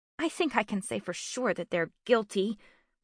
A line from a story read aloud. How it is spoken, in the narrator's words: mumbled Bryn to herself